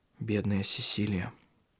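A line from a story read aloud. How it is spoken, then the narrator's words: Quiet. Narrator (Russian): тихо произнес Тарья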